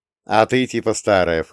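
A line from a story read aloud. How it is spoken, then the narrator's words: Snorting. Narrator (Russian): фыркнул я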